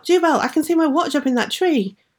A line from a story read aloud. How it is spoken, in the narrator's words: he cried out